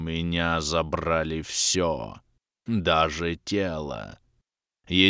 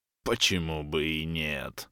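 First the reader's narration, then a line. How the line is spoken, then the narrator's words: Wheezed, strange voice. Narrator (Russian): чужим голосом просипел Грим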